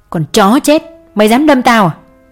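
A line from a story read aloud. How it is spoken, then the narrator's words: Yelling. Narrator (Vietnamese): Miệng hắn gào lên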